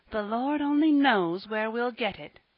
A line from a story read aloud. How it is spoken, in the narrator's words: groaned within herself